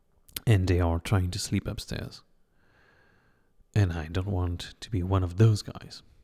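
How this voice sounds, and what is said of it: Quiet, hushed speaking voice. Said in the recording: “I'm not talking so loud”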